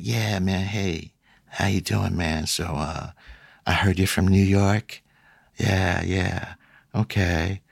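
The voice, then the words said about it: Laid-back, low-effort drawling voice. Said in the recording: “That impression of his voice was spot on ... I'm just too cool to give any effort on my voice, so I'm just going to talk to you like this”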